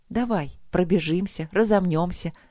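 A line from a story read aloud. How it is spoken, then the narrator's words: Calm continuation. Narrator (Russian): спокойно продолжила она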